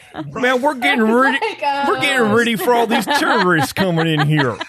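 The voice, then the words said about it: Put-on Bay Area accent. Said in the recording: “Bay Area accent.”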